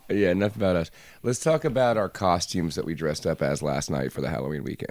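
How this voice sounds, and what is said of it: Hoarse, strained voice. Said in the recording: “My voice is a little shot.”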